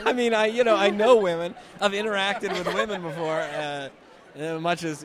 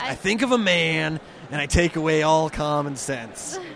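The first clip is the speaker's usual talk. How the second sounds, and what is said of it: Imitates another person's voice. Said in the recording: “my Jack Nicholson impression”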